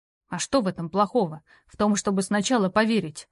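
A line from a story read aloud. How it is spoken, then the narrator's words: Exhausted, self-angry grumble. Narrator (Russian): буркнул обессиленный и злой на себя Роу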